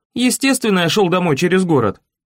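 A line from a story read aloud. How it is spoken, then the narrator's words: Irritable snap. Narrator (Russian): огрызнулся я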